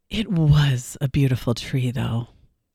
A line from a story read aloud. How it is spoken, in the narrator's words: conclude with a sigh